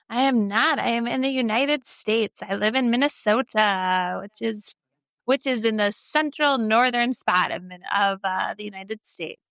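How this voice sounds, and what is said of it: Non-British accent. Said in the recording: “from the accent, I can tell you're not in the UK”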